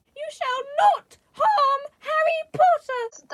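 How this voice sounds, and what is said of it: Good Dobby character voice. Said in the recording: “good Dobby impression. That's the best I've heard so far.”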